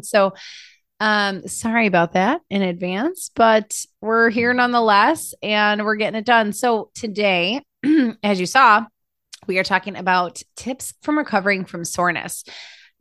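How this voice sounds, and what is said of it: Froggy, hoarse voice. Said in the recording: “Totally feeling froggy today. If you hear it in my voice, ... I just have this kind of like frogginess going on.”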